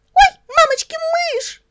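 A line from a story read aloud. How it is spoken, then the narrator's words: Squealing girl. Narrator (Russian): Завизжала эта ягоза Леночка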